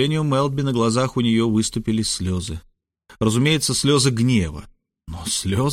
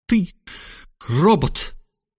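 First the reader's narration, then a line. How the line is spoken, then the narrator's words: Sobbing. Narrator (Russian): всхлипнула она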